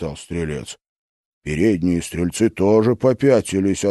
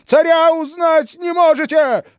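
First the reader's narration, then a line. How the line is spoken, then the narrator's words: Screaming. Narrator (Russian): завопил он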